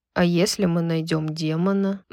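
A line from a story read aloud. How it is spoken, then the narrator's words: Gloomy question. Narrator (Russian): мрачно спросил Хант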